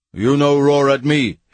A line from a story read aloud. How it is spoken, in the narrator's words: he thundered